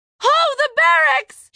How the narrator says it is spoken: She yelled, knowing she was too far away

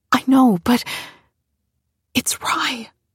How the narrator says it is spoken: she said quietly

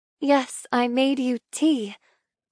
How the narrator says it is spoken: say softly

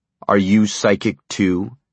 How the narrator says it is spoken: Dussault asked coldly

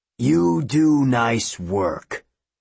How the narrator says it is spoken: a deep voice rumbled from the sky

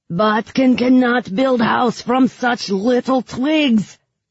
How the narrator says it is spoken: he shouted at me

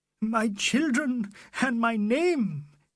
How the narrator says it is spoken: he gasped, his wings broken

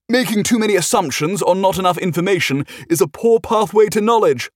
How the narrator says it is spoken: Clive yelled back

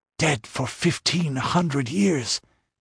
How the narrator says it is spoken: they whispered to each other

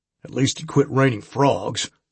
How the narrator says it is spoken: Sam grunted

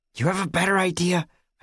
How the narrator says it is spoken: I snapped

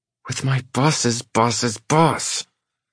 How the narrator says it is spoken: she hisses

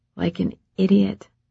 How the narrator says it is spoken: she said softly

